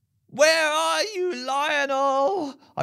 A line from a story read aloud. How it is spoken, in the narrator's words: I wailed to the sky